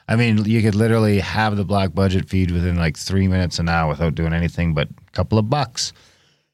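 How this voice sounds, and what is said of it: Hoarse, fading voice. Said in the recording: “I'm losing my voice from the COVID.”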